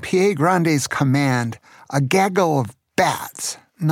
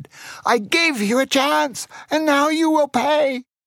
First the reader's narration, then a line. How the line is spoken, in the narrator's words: He shouted